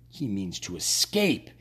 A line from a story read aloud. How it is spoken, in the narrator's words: he muttered